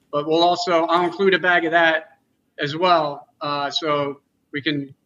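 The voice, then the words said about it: Philly Delco accent. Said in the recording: “I love the Philly accent. ... The Delco accent is slightly harder than the Philly accent, and I'm caught somewhere in between.”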